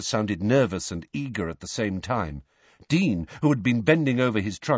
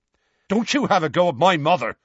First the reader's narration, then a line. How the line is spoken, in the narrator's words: Seamus snapped